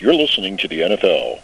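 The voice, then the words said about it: Announcer-style radio voice. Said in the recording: “I used to be a professional broadcaster, you know, on terrestrial radio, and I used to use my radio voice.”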